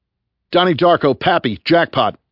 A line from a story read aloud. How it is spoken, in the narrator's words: I shouted